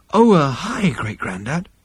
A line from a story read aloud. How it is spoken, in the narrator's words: he breathed